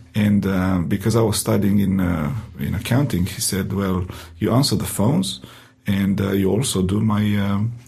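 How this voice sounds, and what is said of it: Heavy Romanian accent. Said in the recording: “my heavy accent, in uh, Romanian accent”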